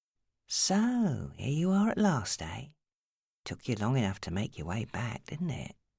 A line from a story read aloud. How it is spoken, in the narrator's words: he said in the softest tone that made her shudder